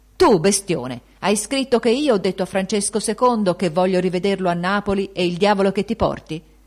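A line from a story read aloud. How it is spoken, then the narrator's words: Shouting in someone's face. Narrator (Italian): gli gridò sul muso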